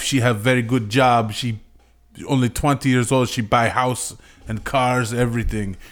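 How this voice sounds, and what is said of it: Mock Russian or Eastern European accent. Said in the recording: “It's a little Russianish, a little Polish, maybe. ... Your accent sounded a little Russian, Ukraine, maybe.”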